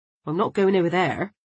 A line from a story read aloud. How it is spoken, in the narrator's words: muttered Markham, never at ease with anything in the animal kingdom